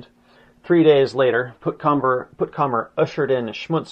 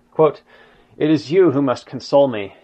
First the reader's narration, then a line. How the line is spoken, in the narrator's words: he sighed